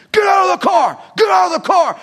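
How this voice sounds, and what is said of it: Screamed shouting. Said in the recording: “He's screaming,”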